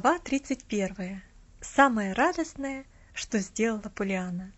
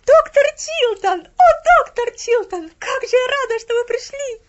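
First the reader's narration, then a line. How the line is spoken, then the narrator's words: Ecstatic exclamation. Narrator (Russian): Воскликнула Поллианна, и в голосе ее звучал такой восторг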